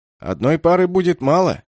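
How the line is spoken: Loud statement. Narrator (Russian): громко произнес тот же пухлый Гертам

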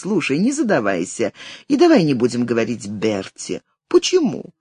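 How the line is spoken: Laughing. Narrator (Russian): засмеялась

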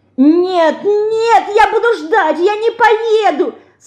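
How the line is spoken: Tearful shouting. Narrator (Russian): Со слезами кричала Динка

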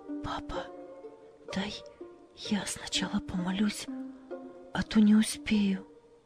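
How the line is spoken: Whispered. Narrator (Russian): она прошептала

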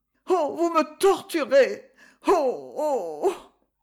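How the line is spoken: Long painful moan. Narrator (French): Le gémissement se prolongeait, si douloureux

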